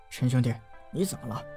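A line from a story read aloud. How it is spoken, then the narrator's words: Quiet. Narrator (Chinese): 关浩小声道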